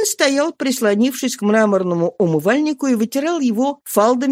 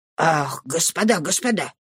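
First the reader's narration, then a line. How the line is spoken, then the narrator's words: Muttering. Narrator (Russian): пробормотал он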